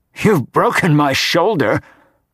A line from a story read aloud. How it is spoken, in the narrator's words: grumbled Percy